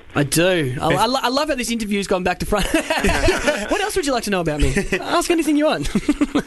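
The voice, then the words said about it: Australian accent. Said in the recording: “I don't know if you can tell from my accent, but you probably can, that I am from Australia ... From Melbourne”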